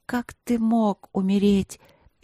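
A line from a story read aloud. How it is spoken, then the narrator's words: Disbelieving whimper. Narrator (Russian): просто скулила, не в силах осознать, что он все-таки здесь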